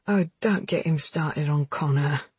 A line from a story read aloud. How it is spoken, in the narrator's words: groaned Jackson